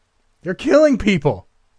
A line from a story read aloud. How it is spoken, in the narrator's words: screamed